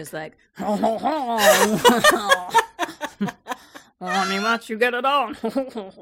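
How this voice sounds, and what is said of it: Comic French-accented character voice. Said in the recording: “do a French horny accent? French alligator is my favorite character you've ever done ... horny French alligator ... whatever you did was perfect”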